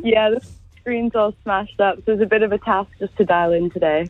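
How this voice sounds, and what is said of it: Canadian accent, sounds almost Irish. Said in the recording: “The luck of the Irish... Almost Irish... is she Irish?... You're raised in Canada. Funny accent... Canadian.”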